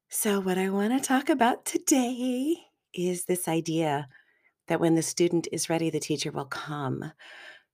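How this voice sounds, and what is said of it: Sick, flu-affected voice. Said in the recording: “the flu virus has come to visit in my home. I feel okay, but I think you can hear it in my voice.”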